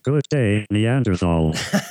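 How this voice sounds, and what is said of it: Silly derpy robot voice. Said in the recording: “I kind of like your derpy voice... you don't sound so imposing with that stupid voice.”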